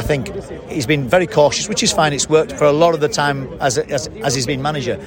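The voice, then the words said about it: Yorkshire English accent. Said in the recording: “you've got an accent from the middle of the country there ... Yorkshire ... Bradford”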